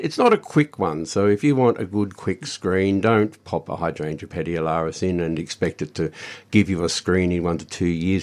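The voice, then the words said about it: Tired, strained voice. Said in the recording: “Pardon my voice, everybody. We're a little bit talked out”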